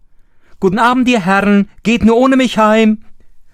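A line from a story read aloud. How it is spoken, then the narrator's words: Mocking laughing call. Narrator (German): rief er ihnen zu und lachte sie aus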